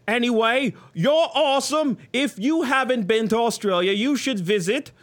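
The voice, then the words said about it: Deliberately bad Australian accent. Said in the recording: “This is not an Australian accent, by the way. ... This is like so far off. I'm purposely off for this one. ... You need to like get more Crocodile Hunter on that.”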